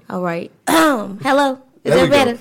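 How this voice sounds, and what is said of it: Polite put-on phone voice. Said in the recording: “She put on that pick up the phone voice ... She got that voice when the bill collectors call.”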